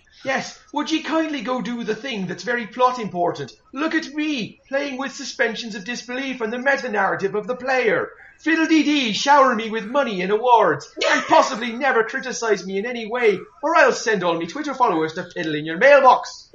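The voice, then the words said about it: Put-on Irish accent. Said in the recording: “putting on this awful ruddy Irish accent ... I like your badass accent. Very endearing.”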